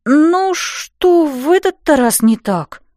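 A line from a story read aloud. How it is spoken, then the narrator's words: Despairing moan. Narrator (Russian): простонала я, чувствуя, как впадаю в отчаяние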